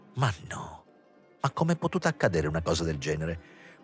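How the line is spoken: Distressed murmur. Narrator (Italian): mormorava come se su di lui si fosse abbattuta una disgrazia

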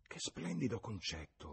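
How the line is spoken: Murmured. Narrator (Italian): mormorò Lucy

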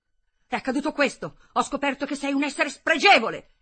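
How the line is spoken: Breathless screaming. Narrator (Italian): Hermann stava urlando, non riusciva a riprendere fiato

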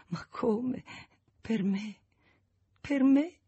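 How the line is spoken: Repeated through sobs. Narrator (Italian): ripeteva fra i singhiozzi

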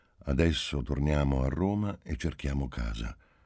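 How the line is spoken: Calm, flat voice. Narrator (Italian): incominciò Marcello con voce calma e incolore

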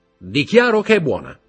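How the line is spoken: Shouted. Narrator (Italian): gridò Morrel

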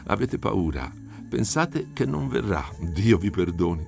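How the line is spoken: Plain. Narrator (Italian): rispose

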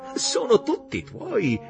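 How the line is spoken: Said laughing. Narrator (Italian): Martin le disse ridendo

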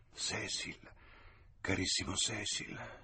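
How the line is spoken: Whispered. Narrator (Italian): sussurrò

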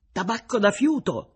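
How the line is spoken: Joyful shout. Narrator (Italian): gridò Konakosh tutto contento

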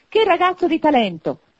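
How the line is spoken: Exclaiming. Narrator (Italian): esclamò Scrooge

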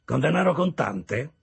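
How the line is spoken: Extremely dry tone. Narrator (Italian): disse Wemmick in un tono più asciutto di qualsiasi segatura

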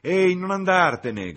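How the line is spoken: Shout. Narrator (Italian): gridò Freddy

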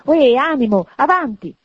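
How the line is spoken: Self-pitying exclamation. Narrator (Italian): esclamò, compiangendo l'altro se stesso

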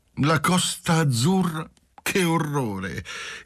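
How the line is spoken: Cheerful impetuous singsong exclamation. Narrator (Italian): esclamava Lina, contenta dell'aiuto di Marcello, allegramente, impetuosamente, con voce cantante

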